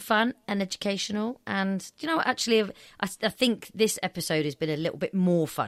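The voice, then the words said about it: Deep, late-night tired voice. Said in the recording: “getting a deep voice now as well because it's late”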